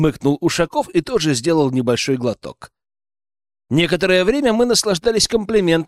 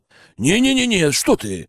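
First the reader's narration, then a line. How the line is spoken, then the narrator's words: Exclamation. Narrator (Russian): воскликнул Михаил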